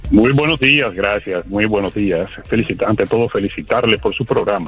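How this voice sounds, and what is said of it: Radio announcer-style voice. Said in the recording (Spanish): “con esa voz de locutor”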